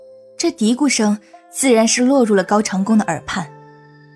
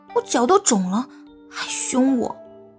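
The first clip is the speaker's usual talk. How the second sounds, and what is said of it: Quiet muttering. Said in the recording (Chinese): “小声的嘀咕道”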